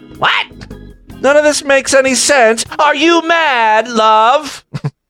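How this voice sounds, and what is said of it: Weak put-on British accent. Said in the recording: “My British impression. I didn't even really try it with an accent.”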